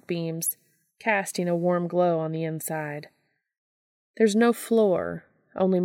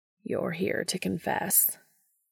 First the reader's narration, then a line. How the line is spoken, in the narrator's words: the man says, voice a delightfully deep rumble that Dean can feel rolling through his bones like thunder in the mountains